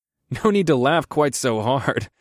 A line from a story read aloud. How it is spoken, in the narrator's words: I chuckled